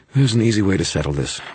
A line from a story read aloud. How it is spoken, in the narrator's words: Marconi said, his voice smooth and even